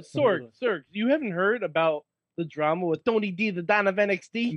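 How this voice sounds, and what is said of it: Put-on Italian accent. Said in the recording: “stop doing that accent ... Then you're allowed to do a bad Italian accent ... No, it's a good Italian accent.”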